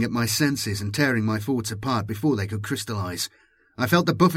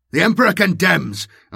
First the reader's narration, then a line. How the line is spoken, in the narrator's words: cried